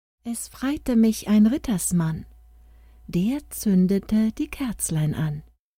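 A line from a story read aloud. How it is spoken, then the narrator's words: Soft reply. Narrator (German): Leise sprach sie zurück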